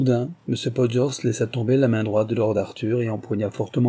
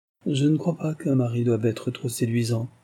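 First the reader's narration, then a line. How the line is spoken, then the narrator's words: Pensive murmur. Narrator (French): murmura Lady Jedburgh d'un air pensif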